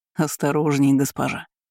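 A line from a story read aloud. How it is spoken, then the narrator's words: Soft laugh. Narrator (Russian): негромко засмеялся он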